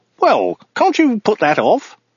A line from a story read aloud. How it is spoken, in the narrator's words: he exclaimed